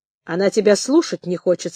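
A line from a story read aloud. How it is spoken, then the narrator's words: Plain. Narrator (Russian): сказал бурсак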